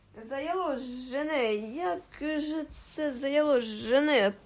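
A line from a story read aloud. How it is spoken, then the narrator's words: Hissing. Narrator (Ukrainian): прошипів він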